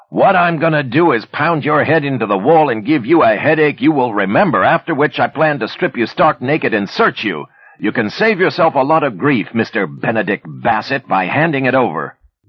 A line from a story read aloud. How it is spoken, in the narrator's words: Leaning forward, Manny yelled into his ear